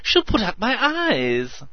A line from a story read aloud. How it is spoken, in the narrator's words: wailed Meadows